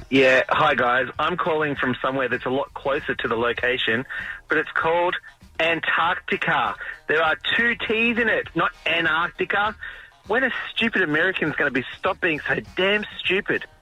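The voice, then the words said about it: New Zealand accent. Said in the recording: “any dude from New Zealand could call me stupid ... you love the accent”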